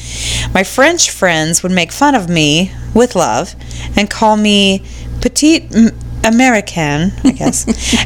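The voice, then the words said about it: Standard nondescript American accent. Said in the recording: “I have a standard American accent, similar to how newscasters or other TV people speak. It's pretty nondescript.”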